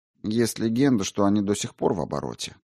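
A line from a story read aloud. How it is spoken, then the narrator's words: Quiet. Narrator (Russian): негромко произнес Грошев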